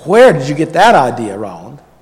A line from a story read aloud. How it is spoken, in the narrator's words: said Father, even as he laughed